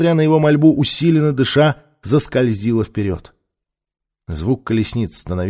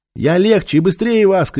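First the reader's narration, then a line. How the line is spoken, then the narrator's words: Shout. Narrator (Russian): крикнула она в ответ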